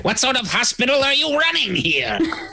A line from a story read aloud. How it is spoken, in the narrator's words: shrieks